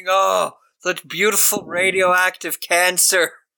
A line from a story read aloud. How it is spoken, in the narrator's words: he's screaming